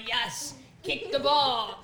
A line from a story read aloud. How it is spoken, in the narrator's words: it was like grunting and going